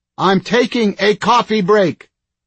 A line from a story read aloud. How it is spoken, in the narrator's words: he hollered